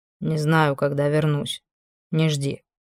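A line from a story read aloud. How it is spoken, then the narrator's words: Muttering from the door. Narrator (Russian): буркнул от дверей Квардинг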